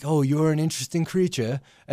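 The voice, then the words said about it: Imperfect put-on British accent. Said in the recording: “Wasn't aware Bray Wyatt was British ... He's acquired a British accent somewhere ... your accents are hit and miss”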